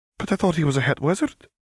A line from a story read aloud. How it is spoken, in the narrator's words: her mother gasped